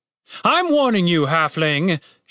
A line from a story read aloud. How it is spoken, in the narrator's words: shouted the captain